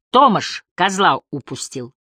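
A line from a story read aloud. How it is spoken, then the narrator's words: Irritated. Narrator (Russian): Виктору раздраженно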